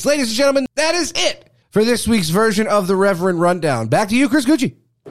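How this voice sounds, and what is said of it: Announcer-style radio voice. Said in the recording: “I'm trying to get that radio voice in.”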